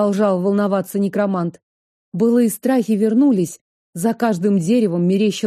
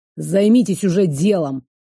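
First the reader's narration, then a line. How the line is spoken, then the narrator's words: Growling client. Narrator (Russian): рыкнул заказчик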